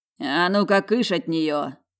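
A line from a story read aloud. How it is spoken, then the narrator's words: Growling. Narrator (Russian): рыкнул брюнет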